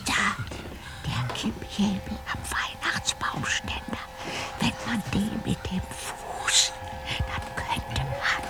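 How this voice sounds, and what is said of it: Whispering. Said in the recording (German): “was gibt es da denn zu flüstern?”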